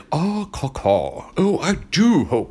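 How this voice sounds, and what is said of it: Bad impression of cartoon villain voice. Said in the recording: “doing a bad impersonation of Beast Wars Megatron”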